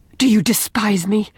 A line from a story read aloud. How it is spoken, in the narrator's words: demanded Leslie in a fierce, low tone